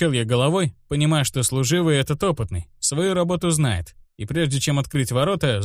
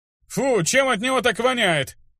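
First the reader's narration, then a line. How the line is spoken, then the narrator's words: Exclamation. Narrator (Russian): воскликнул один из них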